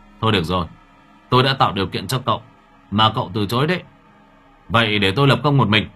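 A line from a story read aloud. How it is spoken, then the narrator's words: Stern voice. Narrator (Vietnamese): Anh Bình nghiêm giọng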